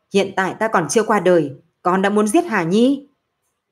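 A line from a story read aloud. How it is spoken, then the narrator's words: Loud angry shout. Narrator (Vietnamese): Nam Môn chỉ hiểu quát lớn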